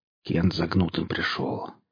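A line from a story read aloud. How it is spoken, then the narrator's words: Quiet. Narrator (Russian): тихо сказал Саха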